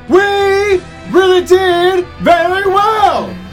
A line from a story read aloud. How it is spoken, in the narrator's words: cried the fairy a pleased voice